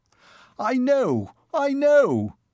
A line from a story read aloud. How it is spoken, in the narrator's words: he shouted